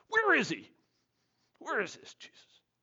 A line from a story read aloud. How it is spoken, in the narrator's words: There was so much grumbling among the crowds